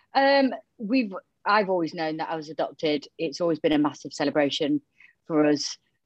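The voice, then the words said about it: Yorkshire accent. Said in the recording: “gives a very Yorkshire feel to this interview... hence the Yorkshire twang”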